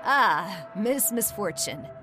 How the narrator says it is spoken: he chuckled

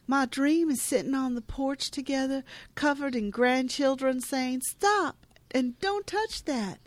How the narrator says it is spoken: Shelby happily exclaims

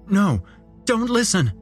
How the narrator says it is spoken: urgently spoken by a different voice in my head

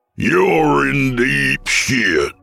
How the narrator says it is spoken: growled the chief

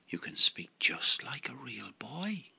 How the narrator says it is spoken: gasped Geppetto, and his eyes filled with tears of joy

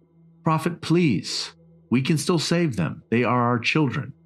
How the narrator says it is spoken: Arthur was pleading now

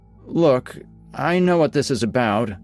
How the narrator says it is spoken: I stammer

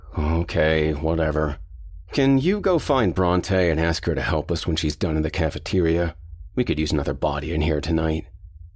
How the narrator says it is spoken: Rob grunted

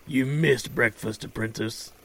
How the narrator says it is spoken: Praxos rasps

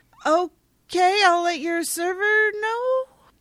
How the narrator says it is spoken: Random guy in a bow tie and a vest yells uncertainly back

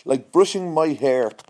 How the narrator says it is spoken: snapped Cordelia

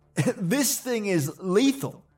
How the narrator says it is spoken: laughed

